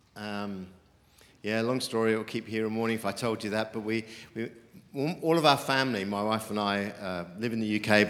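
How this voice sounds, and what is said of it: British accent. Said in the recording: “As you can tell from my accent, I'm not from around these parts. I'm a Brit”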